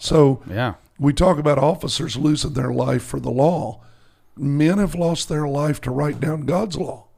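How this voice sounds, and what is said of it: Hoarse voice. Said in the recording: “Apologize for the hoarseness of my voice.”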